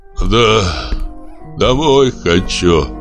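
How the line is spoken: Mutter. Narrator (Russian): пробормотал Щипцов

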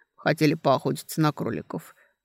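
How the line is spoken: Grumbling. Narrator (Russian): проворчал Кун

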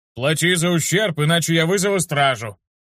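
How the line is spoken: Barking warrior. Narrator (Russian): рявкнул воин

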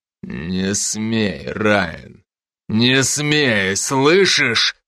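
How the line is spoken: Growled. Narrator (Russian): прорычал он

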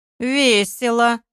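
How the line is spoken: Thoughtful, through teeth. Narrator (Russian): задумавшись, процедил Олег

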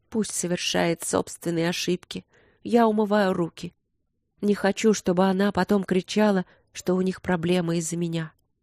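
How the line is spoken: Exhausted mutter. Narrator (Russian): обессиленная своим гневом, она пробормотала

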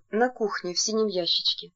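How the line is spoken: Woman whispering. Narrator (Russian): Женщина прошептала

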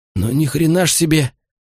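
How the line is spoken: Relieved exhale. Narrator (Russian): выдохнул кто-то с нескрываемым облегчением

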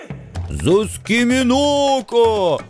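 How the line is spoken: Deafening yell. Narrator (Russian): оглушительно громко заорал бульдозер

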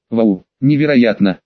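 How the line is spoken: Trembling, admiring. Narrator (Russian): Андрей дрожащим голосом выразил свое восхищение

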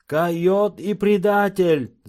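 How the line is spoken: Group shouting. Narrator (Russian): закричали индейцы

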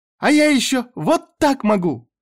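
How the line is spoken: Joyful child shouting. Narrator (Russian): Девочка радостно закричала

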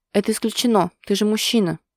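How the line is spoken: Sharp interruption. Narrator (Russian): резко осекает его Васим

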